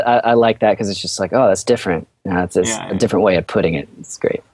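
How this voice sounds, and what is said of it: Usual voice. Nothing is said of it.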